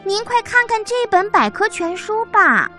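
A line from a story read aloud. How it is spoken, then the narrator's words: Loud. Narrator (Chinese): 小老鼠大声地说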